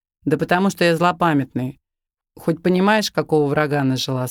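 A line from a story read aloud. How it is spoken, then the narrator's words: Laughing scoundrel. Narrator (Russian): смеялся подонок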